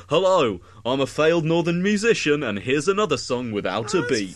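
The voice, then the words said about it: Mock radio presenter voice. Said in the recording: “I love BBC Six music, but my friend Johnny's impression of it is...”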